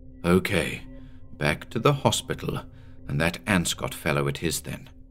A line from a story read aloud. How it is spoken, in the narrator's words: he said softly